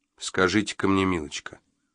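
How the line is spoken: Calm, even question. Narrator (Russian): удивительно ровным и спокойным тоном спросил Джо

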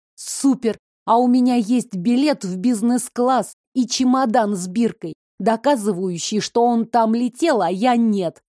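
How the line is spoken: Plain. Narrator (Russian): сказала я

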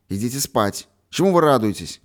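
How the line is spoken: Stern commanding voice. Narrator (Russian): Хозяйским суровым голосом сказал он

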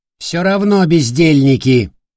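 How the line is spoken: Loud cursing. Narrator (Russian): Магистр громко выругался

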